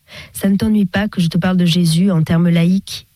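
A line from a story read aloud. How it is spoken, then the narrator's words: Sudden, deeply respectful, hesitant. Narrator (French): demanda-t-il soudain d'un ton de respect profond, incertain des libertés qu'il pouvait prendre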